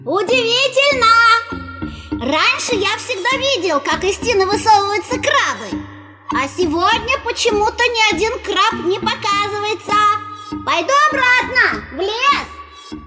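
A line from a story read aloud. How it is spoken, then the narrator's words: Loud calling out. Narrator (Russian): громко выкрикивать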